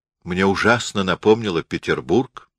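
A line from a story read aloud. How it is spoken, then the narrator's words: Plain. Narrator (Russian): сказал Николай Степанович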